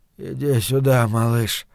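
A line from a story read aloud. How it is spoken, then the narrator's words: Absent-minded mumble. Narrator (Russian): бормотал он, не ощущая смысла собственных слов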